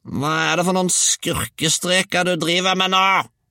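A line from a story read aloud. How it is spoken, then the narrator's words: Grandmother howling. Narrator (Norwegian): hylte bestemor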